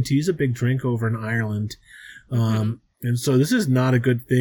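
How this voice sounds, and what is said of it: Usual voice. Nothing is said of it.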